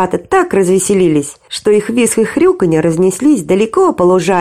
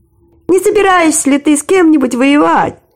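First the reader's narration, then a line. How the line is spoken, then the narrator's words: Cheerful grunting. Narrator (Russian): весело прохрюкал Ниф-Ниф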